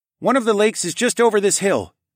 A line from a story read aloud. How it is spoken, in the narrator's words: Tawa called out over his shoulder